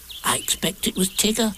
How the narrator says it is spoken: said Piglet nervously

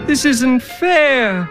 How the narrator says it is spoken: cried Till

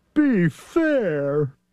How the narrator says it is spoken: Thidwick begged with a lump in his throat

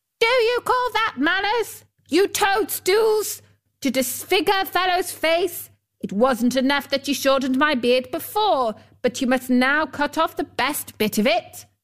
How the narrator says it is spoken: He yelled to them

